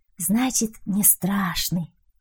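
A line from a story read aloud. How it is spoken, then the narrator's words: Child's sigh. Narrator (Russian): вздохнул малыш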